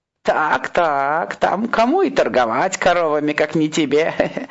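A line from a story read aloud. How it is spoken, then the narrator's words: Old man laughing. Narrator (Russian): посмеялся старичок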